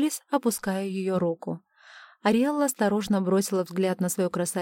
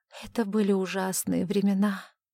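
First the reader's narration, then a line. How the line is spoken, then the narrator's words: Quiet. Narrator (Russian): тихо сказала Ариэлла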